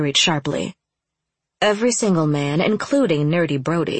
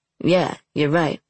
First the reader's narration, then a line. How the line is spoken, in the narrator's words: Luke rumbled